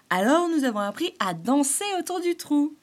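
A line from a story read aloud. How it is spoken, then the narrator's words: Triumphant sly squirrel exclaiming. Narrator (French): s'exclama l'écureuil chafouin d'un air triomphant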